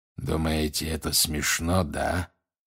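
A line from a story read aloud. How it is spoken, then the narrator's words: Growl. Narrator (Russian): прорычал он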